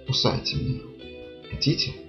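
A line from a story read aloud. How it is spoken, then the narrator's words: Whisper. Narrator (Russian): прошептал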